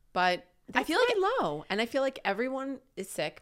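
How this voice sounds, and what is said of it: Stuffy, congested voice. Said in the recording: “I have a cold... I apologize because I'm a little stuffy... Little stuffed up.”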